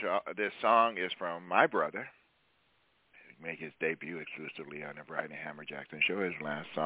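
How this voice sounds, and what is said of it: Usual voice. Nothing is said of it.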